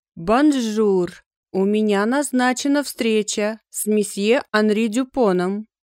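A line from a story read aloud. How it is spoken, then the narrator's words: Low, charming female voice. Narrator (Russian): произнесла она своим низким, чарующим голосом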